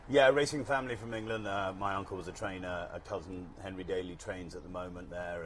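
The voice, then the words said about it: English accent. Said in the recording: “with the accent, we know you're from across the pond”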